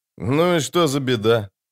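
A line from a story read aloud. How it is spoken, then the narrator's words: Sighing. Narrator (Russian): Хотспорн вздохнул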